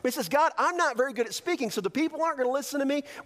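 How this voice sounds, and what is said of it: Southern American accent. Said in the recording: “I have a southern accent ... I'm from the South”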